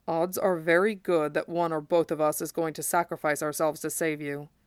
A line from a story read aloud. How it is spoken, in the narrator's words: he murmured